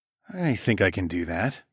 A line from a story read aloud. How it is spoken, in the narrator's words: I purred